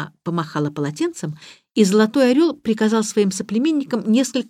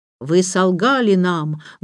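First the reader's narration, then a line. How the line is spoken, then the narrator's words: Menacing. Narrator (Russian): грозно начал Золотой Орел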